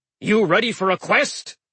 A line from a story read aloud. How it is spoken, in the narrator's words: he bellowed